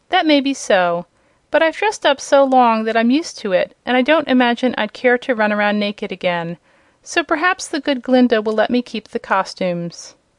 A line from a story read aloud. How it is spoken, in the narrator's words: he faltered